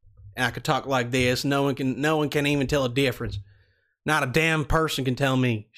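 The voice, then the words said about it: Put-on Southern accent. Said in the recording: “We're going to go ahead and do the same Southern accent just because it's fun... And I'm good at it.”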